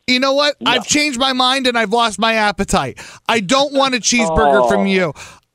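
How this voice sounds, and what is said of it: Yelling angrily. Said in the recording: “while I'm yelling at you”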